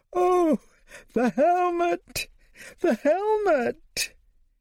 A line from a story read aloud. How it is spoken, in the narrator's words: from whence was heard a confused noise of shrieks, horror, and surprise